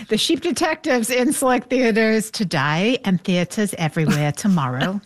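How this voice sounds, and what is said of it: Bad put-on British accent. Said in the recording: “See, there's a bad British accent.”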